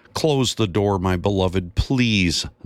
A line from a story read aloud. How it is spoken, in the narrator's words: Zacchaeus's wife yelled in frustration